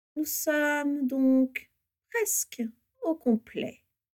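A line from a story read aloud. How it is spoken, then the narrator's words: Sugary voice. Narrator (French): dit-il d'une voix doucereuse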